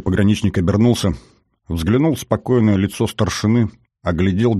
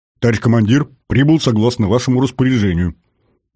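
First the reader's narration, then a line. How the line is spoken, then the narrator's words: Slightly breathless deep bass. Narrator (Russian): Чуть запыхавшийся голос старшины пробасил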